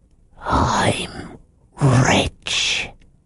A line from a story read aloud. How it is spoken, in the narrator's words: lowering his voice to a whisper